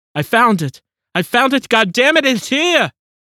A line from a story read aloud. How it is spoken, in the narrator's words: a cacophony of cries had bellowed